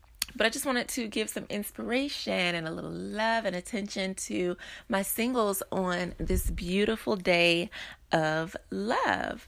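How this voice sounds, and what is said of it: Slightly strained voice. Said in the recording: “My voice is a bit strained.”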